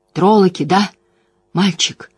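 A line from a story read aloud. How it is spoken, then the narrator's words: Hoarse smoke-roughened question. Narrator (Russian): спросил Ранда мастер Лухан, охрипшим от дыма голосом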